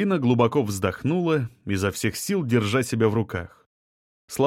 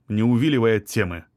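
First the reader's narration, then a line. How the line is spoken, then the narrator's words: Stern. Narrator (Russian): строго сказал Павлов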